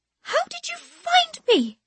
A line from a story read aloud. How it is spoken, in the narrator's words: she demands, her voice still absurdly high, even when hissed through a clenched jaw